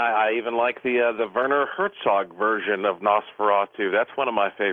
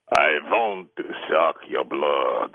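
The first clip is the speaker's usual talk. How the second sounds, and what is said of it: Dracula vampire voice. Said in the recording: “Give me your best Dracula voice. ... Not bad”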